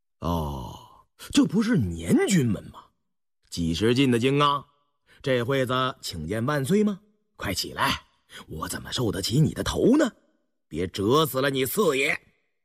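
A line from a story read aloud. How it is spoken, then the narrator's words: Flat, detached. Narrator (Chinese): 胤禛淡淡地说道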